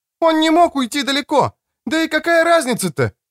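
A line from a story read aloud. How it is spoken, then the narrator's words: Shouted after someone. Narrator (Russian): кричала мне вслед Креция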